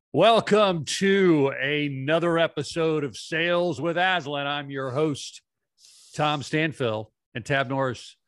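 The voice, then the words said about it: Over-the-top announcer voice. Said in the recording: “I kind of have an announcer voice today ... I was doing my announcer voice ... I feel like I'm a little over the top.”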